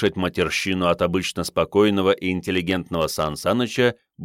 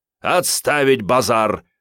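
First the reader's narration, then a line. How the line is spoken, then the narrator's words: Barked command. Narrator (Russian): рявкнул Сан Саныч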